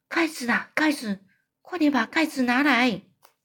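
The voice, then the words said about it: Quiet whispered urgent line. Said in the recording (Chinese): “他又小声的说”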